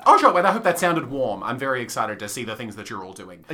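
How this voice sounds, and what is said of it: Sarcastic-sounding delivery. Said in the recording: “you sound sarcastic”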